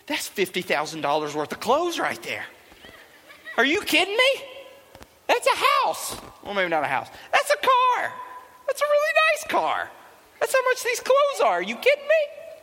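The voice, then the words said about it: Deliberately bad impression of his mom. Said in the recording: “She didn't talk like this, by the way. It's a terrible mom impersonation.”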